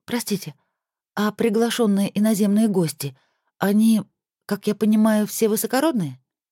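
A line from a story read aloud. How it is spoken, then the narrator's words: Quiet, slightly nervous question. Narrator (Russian): Чуть взволнованным голосом вдруг тихо спросила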